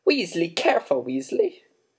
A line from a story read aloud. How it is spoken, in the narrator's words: cried Professor Sprout